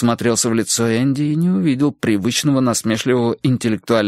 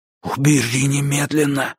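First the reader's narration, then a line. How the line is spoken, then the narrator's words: Theatrical whisper. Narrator (Russian): Энди продолжал шептать, как персонаж плохого шпионского фильма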